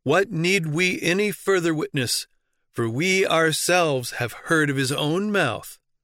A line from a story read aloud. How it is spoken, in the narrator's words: They cried out